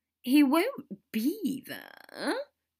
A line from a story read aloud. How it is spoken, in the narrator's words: Draco whined